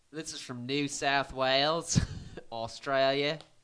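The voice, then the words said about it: Put-on Australian accent. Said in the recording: “That's a damn good Australian accent you got going on there.”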